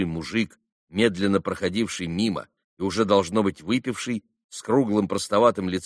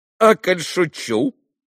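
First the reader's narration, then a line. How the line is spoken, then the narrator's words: Laughing. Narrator (Russian): засмеялся Коля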